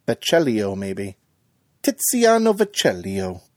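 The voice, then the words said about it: Put-on Italian accent. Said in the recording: “sounds Italian ... That might have just been my wonderful accent.”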